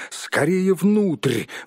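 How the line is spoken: Hobbit's exclamation. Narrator (Russian): воскликнул хоббит

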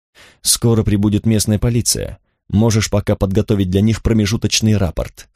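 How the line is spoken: Plain. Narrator (Russian): сказал главный

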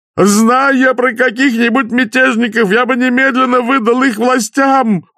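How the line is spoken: Deafening yell, innkeeper. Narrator (Russian): уже оглушительно заорал трактирщик

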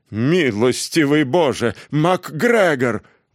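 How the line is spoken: Exclamation. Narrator (Russian): воскликнула мисс Беннет

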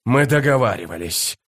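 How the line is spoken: Hoarse rasp. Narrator (Russian): прохрипел он

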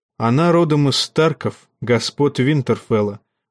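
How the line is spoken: Calm. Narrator (Russian): отвечал Нэт спокойно

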